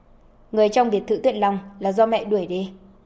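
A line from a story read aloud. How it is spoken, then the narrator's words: Cold, grim. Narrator (Vietnamese): Sắc mặt của Lâm Ẩn âm trầm như nước, lạnh lùng nói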